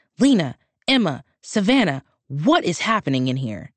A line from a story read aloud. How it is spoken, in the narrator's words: he screamed